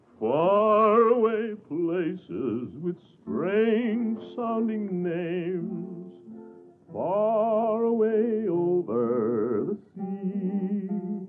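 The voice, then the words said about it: Deep male singing voice. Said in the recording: “a ringmaster with a deep voice to sing a song or two”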